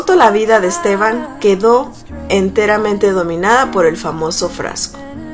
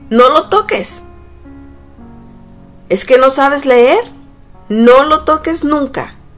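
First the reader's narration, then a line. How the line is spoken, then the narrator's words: Shouting. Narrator (Spanish): gritaba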